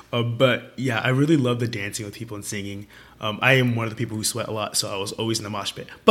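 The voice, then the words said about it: Hoarse, strained voice. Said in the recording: “if you can't tell, I'm, like, kind of losing my voice right now”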